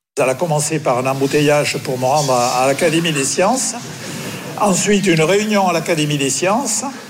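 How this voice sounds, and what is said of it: Southwestern French accent. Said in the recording (French): “Il a gardé son accent du sud-ouest”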